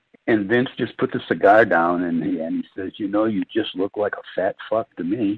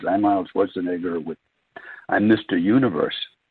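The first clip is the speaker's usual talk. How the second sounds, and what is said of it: Arnold Schwarzenegger Austrian accent impression. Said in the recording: “I'm Arnold," with his total accent.”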